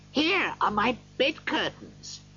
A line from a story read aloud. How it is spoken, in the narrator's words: he cried delightedly